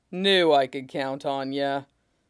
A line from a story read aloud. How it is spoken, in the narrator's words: Whitebeard says with a rumbling laugh